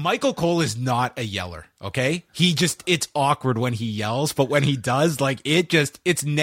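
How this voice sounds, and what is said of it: Usual voice. Nothing is said of it.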